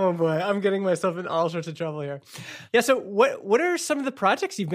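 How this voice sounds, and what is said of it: Usual voice. Nothing is said of it.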